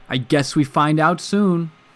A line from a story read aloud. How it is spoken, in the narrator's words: he said, raising his voice to be heard over the whine of the engine